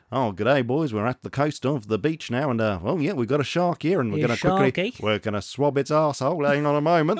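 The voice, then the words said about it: Bad put-on Australian accent. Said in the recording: “we've also upset Australians with a terrible accent.”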